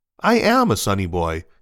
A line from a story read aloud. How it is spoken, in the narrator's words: says cheerfully